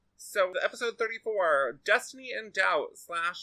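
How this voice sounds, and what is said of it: Usual voice. Nothing is said of it.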